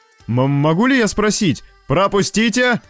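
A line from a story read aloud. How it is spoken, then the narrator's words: Yell. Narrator (Russian): заорал Лоуренс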